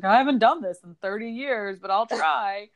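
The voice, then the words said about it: Imitates another person's voice. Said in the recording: “That was a good impersonation of her voice.”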